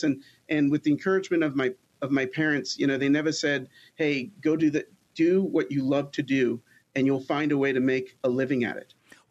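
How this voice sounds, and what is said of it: Long Island accent. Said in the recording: “I grew up on Long Island. You can't tell. I can't get rid of the accent.”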